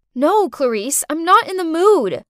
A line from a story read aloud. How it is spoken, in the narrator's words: I shouted